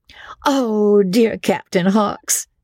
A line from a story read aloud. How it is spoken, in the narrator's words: they cried